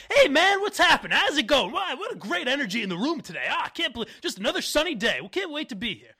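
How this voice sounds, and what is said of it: Upbeat, always-on guy voice. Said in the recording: “good mutt impression”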